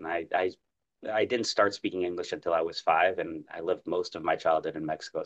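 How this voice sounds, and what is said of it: Clean, natural American accent. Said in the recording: “a very clean, natural American accent ... a nice American accent”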